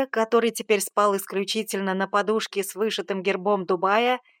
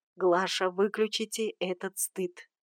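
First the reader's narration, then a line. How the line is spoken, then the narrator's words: Muffled sleepy whisper. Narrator (Russian): Сан Саныч вздрагивал во сне, укрывался одеялом с головой и шептал в ответ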